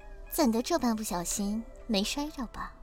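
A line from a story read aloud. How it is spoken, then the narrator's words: Soft gentle voice. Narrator (Chinese): 柔声道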